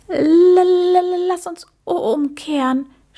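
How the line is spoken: Stuttering. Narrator (German): stotterte er

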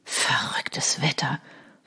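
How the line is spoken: Cursing. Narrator (German): fluchte er

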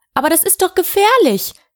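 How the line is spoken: Excited call. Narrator (German): rief Wilhelmine aufgeregt

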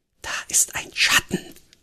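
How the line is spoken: Breathed softly. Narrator (German): hauchte sie

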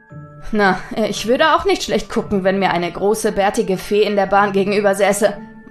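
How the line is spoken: Suppressing laughter. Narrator (German): meinte Nathaniel und konnte sich ein Lachen jetzt auch kaum noch verkneifen

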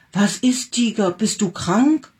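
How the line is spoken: Calling out. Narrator (German): rief

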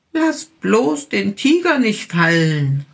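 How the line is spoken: Little bear calling. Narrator (German): rief der kleine Bär

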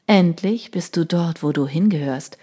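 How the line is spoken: Tender whisper. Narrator (German): flüsterte er ihr zärtlich zu

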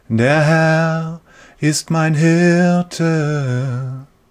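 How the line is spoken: Gentle singing. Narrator (German): singt er mit sanfter Stimme

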